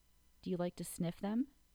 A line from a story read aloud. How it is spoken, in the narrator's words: she asked